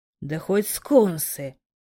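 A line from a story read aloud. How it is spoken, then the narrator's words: Growling. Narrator (Russian): рычал Кайден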